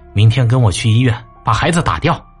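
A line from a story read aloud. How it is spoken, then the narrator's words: Cold. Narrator (Chinese): 张晶冷冷说道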